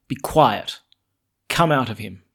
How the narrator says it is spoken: Jesus said sharply

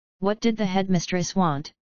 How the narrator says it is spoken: She asked him, keeping her voice level

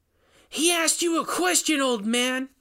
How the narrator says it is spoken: Rainey yelled again

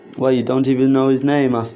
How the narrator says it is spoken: answered the lad

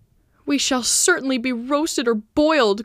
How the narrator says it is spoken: cried Candide, on noticing the cauldron and the skewers

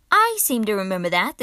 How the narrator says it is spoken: the captain said dryly

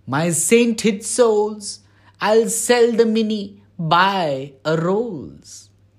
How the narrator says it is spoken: She yells out aloud

